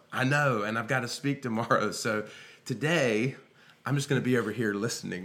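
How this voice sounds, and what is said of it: Slightly hoarse voice. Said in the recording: “Forgive my voice, man. I'm coming after a little bit of hoarseness”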